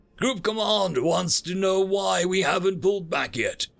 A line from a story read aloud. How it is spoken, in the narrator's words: he yelled, over the sound of my rifle firing